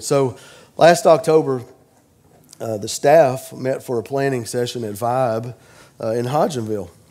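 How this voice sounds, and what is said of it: Sick, congested-sounding voice. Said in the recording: “This isn't a typical speaking voice for me... I have acquired some kind of a crud... the allergies... I sound kind of weird”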